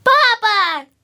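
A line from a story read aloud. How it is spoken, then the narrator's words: Shouting from nursery. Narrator (Russian): кричали с детской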